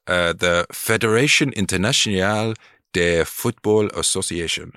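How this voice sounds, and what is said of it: Put-on French accent. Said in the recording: “That was meant to be a French accent. ... I think you absolutely nailed it.”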